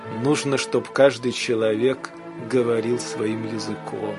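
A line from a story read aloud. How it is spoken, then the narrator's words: Quiet laugh, then said. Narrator (Russian): Антон Павлович тихо рассмеялся и сказал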